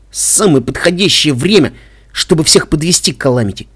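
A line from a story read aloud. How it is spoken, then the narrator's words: Grumbling. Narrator (Russian): пробурчал наш Пегас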